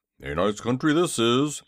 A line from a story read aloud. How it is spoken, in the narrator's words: he grumbled